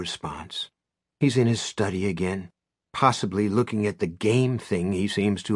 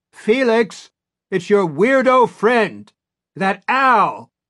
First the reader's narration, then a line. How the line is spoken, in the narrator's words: shouts